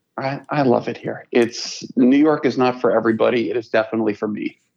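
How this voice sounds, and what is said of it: Gravelly, deeper, congested voice. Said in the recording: “if you can hear in my voice, that sound is not me trying to go gravelly or deeper with the voice. It's just the pollen slowly taking over every little bit of my lungs and no nasal passages”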